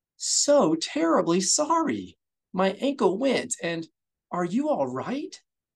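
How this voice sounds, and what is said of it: Embarrassed apologetic character voice. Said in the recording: “she repeated over and over in her best embarrassed voice”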